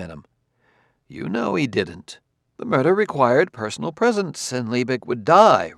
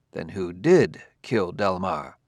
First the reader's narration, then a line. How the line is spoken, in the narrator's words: Bailey said slowly